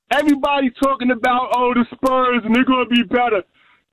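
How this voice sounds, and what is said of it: New York accent. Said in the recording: “if you can tell from my accent, I am from New York”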